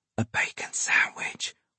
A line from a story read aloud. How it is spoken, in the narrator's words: whispered Majid